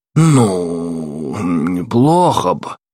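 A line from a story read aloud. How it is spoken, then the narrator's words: Old man's drawl. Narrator (Russian): протянул старый корсар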